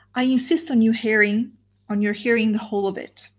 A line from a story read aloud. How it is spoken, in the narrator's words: he replied